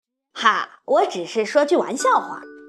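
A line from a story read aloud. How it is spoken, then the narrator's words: Angry roar. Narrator (Chinese): 格鲁布太太发出一声怒吼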